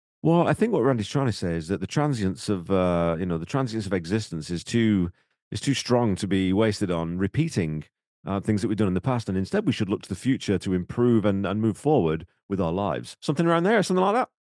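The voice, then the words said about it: 1990s history professor voice. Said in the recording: “I like the accent. What accent was that? ... It's my sort of 1990s history professor kind of voice.”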